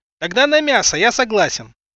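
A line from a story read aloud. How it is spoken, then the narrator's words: Shout from pushy ragamuffin. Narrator (Russian): Буквально крикнул в спину назойливый оборванец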